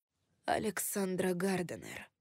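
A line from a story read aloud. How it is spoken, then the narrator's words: Quiet. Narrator (Russian): тихо произнес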